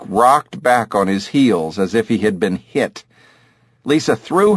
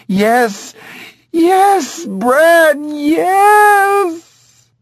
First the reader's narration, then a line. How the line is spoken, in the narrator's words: suddenly she heaved and screamed